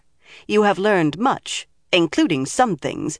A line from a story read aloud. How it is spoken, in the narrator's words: she added sharply